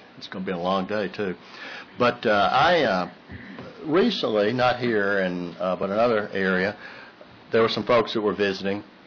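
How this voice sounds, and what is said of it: Strained, fading voice. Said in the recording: “I'm already losing my voice”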